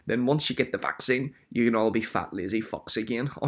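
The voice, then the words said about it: Put-on accent. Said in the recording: “Don't know what accent I was doing there.”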